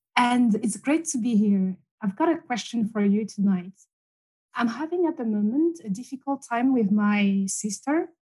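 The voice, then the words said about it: Speaker with a foreign accent. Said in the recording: “Look at that gorgeous accent.”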